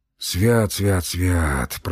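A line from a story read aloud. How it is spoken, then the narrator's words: Hoarse wheeze. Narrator (Russian): просипел Емельян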